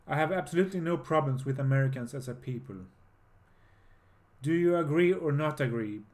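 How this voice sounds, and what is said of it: Strange foreign accent in English. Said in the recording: “my strange accent”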